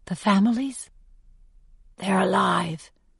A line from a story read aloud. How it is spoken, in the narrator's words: she says back softly